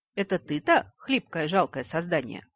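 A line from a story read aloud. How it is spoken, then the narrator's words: Mocking chuckle near ear. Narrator (Russian): хохотнули над другим ухом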